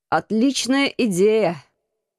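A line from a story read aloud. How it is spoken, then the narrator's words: Hoarse reply. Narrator (Russian): хрипло откликнулся командор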